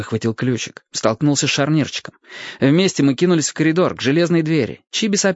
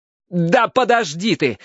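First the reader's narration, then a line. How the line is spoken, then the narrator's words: Barked. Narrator (Russian): рявкнул я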